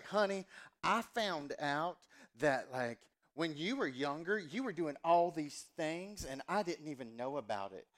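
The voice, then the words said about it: Exaggerated Southern US accent. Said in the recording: “my accent was very much honey boo boo ... every time I do my mom's accent, it's because I'm doing my accent from growing up”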